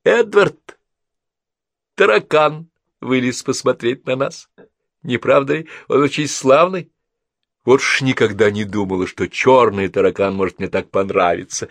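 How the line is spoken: Sudden laughing speech. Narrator (Russian): Мидж, внезапно рассмеявшись, сказала

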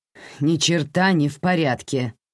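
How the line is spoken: Grumbling. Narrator (Russian): пробурчала таксистка

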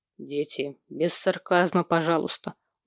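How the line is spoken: Tired. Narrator (Russian): устало произнес Сэм

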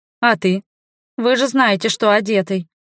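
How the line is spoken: Grumbled. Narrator (Russian): Буркнула

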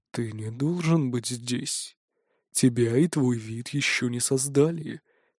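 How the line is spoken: Quiet. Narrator (Russian): тихо произносит

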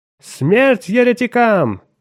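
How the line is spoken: Crowd howling madly. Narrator (Russian): безумно взвыла следующая за ним толпа

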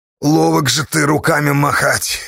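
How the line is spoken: Approving grumble. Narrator (Russian): одобрительно пробурчал Платоха

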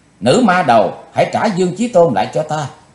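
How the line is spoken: Shout. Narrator (Vietnamese): Quỳnh Giao đã hét lên

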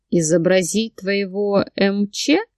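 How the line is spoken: Smirking grunt, purring. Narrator (Russian): хмыкнул он и заурчал

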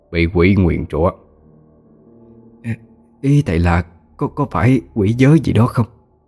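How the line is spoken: Stammering guess. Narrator (Vietnamese): bà Liên lắp bắp đoán định

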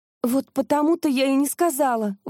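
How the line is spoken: Exclaiming. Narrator (Russian): воскликнула

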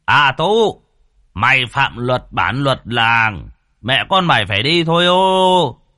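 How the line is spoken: Loud call through cupped hands. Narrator (Vietnamese): Ông Sùng trưởng bản bắt tay làm loa lớn tiếng gọi

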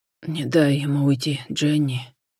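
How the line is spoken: Choking, gasping through blood. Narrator (Russian): Давясь набегающей в рот кровью, выдохнул Джон

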